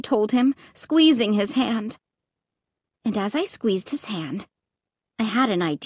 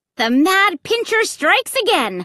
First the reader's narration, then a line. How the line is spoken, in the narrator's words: I shouted